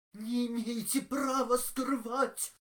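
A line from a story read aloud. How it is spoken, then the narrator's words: Hoarse, from an older man. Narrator (Russian): хрипел старший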